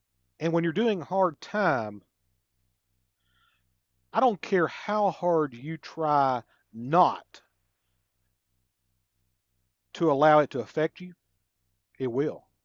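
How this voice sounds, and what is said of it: Southern US drawl. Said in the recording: “my Southern accent ... my Southern drawl”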